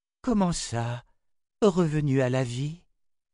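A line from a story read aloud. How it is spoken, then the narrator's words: Trembling anxious question. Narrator (French): demanda-t-elle d'une voix tremblante d'inquiétude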